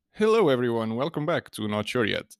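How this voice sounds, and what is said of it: Announcer-style radio voice. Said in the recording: “I'm starting as a radio voice”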